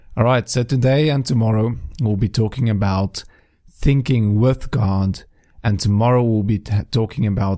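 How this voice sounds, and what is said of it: Strained voice, barely able to talk. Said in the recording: “please excuse my voice. As you can hear, I'm barely able to talk properly... I'm sorry if this makes you cringe”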